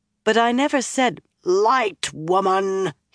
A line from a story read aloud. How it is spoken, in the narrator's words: he roared